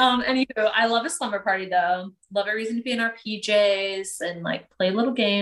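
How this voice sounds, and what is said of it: Usual voice. Nothing is said of it.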